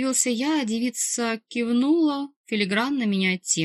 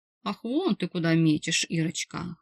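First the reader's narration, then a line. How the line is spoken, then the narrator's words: Inner chuckle. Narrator (Russian): хохотнул я мысленно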